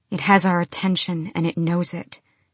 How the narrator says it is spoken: she said

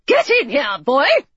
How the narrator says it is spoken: she barked

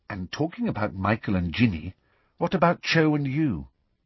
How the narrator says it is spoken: said in an undertone

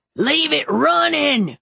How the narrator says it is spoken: Teddy Joe screamed over the noise

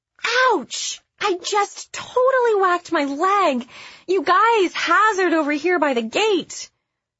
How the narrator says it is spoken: Lauren yelped

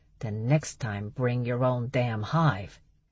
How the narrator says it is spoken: he growled out

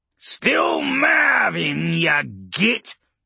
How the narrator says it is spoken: Urgork snarled, his dark mood returning

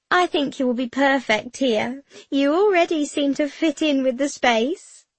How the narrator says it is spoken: Madame Claire giggles

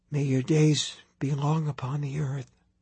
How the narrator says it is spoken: she whispered

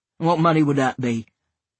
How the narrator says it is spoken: said gruffly

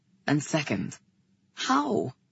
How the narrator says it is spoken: He said gently

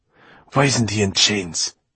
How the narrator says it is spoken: She snapped at the piper

